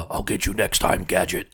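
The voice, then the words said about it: Dr. Claw impression. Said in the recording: “It always ends up sounding like Dr. Claw.”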